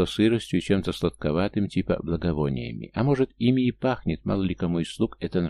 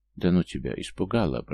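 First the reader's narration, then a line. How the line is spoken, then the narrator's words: Muttered reply. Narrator (Russian): пробормотал я в ответ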